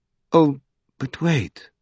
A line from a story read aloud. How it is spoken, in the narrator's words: said Arabella softly